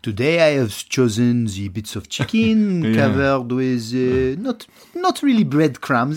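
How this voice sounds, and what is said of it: Put-on French accent. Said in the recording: “Your French accent is very... accurate.”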